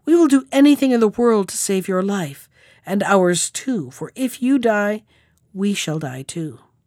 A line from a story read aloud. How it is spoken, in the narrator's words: cried she